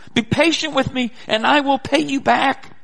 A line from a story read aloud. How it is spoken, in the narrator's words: begged him